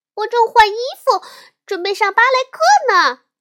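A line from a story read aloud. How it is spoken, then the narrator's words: Shouting from upstairs. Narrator (Chinese): 小熊妹妹从楼上喊道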